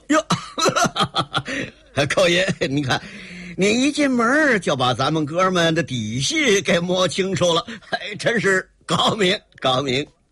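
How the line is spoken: Hearty laugh. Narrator (Chinese): 那个刀疤脸哈哈一笑

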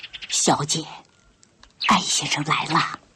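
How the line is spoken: Quiet whisper. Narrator (Chinese): 陈妈对坐在沙发上的潇潇悄声说道

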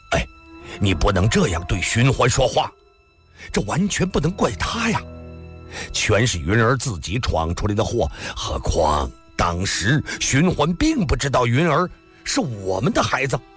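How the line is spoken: Cough, then loud. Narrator (Chinese): 龙小云干咳嗽了一声…大声地说道

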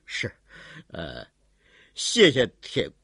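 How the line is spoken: Wry smile. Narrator (Chinese): 苦笑了一下

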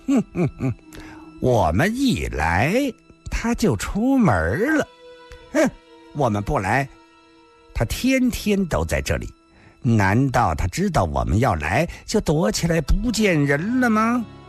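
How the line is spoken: Rude, confrontational. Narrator (Chinese): 这话说得很不客气，果然像是来找麻烦的

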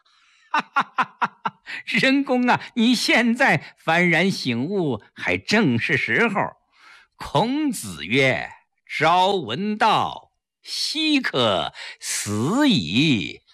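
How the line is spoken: Hearty laughter. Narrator (Chinese): 柳亚子开怀大笑

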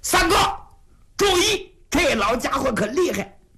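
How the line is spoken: Urgent shout. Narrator (Chinese): 出于这种担心，云瑞就在旁边紧喊

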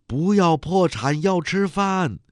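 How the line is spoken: Young woman shouting. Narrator (Chinese): 一个青年女工举起右手喊

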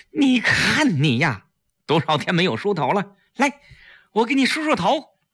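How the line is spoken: Sad loud voice. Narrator (Chinese): 季嫣然难过地大声说

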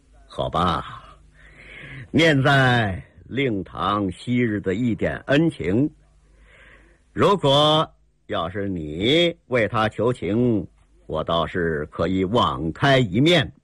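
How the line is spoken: Cold sneering. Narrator (Chinese): 铁海棠又是冷冷一笑

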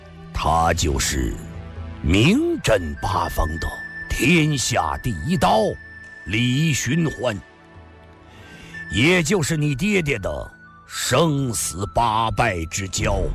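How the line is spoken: Slow, malicious. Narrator (Chinese): 秦孝义的目光中又露出一丝恶毒的笑意，缓缓地说道

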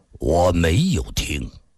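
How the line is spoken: Flat, cold. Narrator (Chinese): 金无命脸上全无表情，冷冷地说道

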